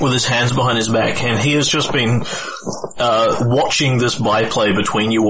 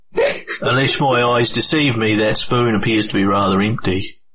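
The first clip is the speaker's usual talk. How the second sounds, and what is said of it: Put-on accent. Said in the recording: “Let me find my accent.”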